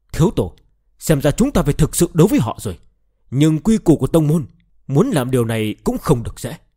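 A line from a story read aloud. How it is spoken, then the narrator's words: Angry. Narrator (Vietnamese): Trương Đại Bàn giận dữ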